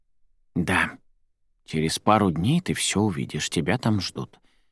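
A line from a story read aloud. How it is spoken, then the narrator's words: Grandmother whispering. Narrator (Russian): бабушка все еще говорила шепотом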